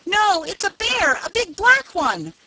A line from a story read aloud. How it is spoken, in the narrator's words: screaming in a great panic